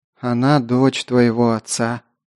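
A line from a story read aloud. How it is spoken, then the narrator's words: Sad smiling. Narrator (Russian): печально улыбнулась Агата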